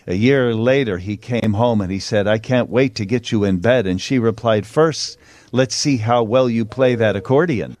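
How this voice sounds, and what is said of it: Slight Canadian accent. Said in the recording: “Slight Canadian accent there”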